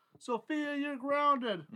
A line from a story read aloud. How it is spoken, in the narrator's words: hollers